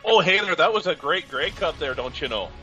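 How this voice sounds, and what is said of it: Exaggerated Minnesota-style Canadian accent. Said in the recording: “Why are you from Minnesota? ... Yeah, or Wisconsin. ... do the Canadian accent”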